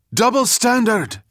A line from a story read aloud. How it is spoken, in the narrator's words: shouted Ahmed, and several others echoed him